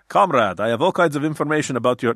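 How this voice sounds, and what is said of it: Put-on Russian accent. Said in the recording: “this is my Russian accent”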